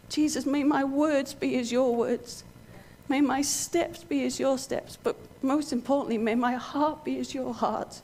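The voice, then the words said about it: Emotional, choked-up voice. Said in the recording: “Sorry, I'm getting emotional.”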